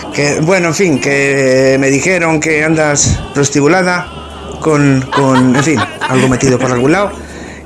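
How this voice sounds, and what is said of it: Slipping put-on Mexican accent. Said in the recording (Spanish): “Se me está yendo el acento mexicano.”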